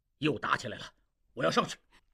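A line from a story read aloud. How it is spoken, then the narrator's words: Hurried. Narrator (Chinese): 前线方向忽然枪声大作，张振武急忙说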